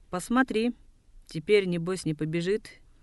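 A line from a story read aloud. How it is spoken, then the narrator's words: Cheerful, laughing. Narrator (Russian): Базар весело рассмеялся и сказал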